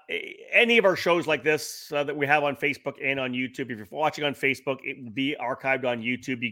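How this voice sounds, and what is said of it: Slightly scratchy voice. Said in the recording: “I'm literally still not recovered yet. My voice is still a little scratchy.”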